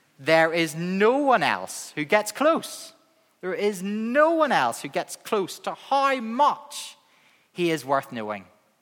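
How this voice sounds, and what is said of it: Northern Irish accent. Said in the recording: “the full enthusiasm of my Northern Irish accent”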